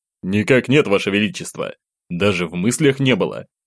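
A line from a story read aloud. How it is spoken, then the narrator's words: Calm reply. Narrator (Russian): спокойно держал ответ Одинцов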